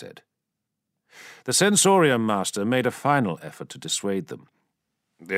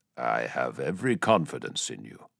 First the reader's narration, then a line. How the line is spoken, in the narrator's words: the Khan said calmly